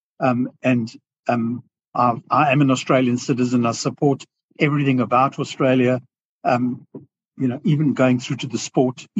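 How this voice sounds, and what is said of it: South African accent. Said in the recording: “as you can hear from my accent, you know, I have a South African accent”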